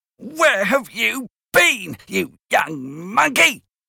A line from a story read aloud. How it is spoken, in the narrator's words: shouted while she hit me